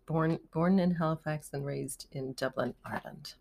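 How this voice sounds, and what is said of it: Very slight Irish accent. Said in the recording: “she has a beautiful, very slight Irish accent.”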